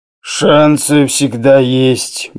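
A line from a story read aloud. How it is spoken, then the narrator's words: Gruff mutter. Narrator (Russian): буркнул Оспенский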